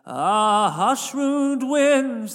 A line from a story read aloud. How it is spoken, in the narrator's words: the stranger cried